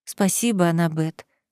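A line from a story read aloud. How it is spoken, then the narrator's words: Quiet. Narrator (Russian): тихо сказала я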